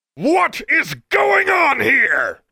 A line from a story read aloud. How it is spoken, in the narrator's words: bellowed a nauseatingly familiar voice